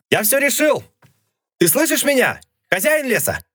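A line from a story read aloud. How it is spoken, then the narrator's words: Shouted. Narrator (Russian): Прокричал он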